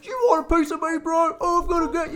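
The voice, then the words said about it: Imitates another person's voice. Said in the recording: “love that impression. ... Yeah, that's my impression.”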